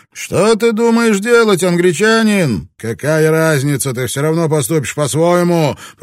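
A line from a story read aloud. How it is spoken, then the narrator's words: Shouting against the wind. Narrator (Russian): прокричал он против ветра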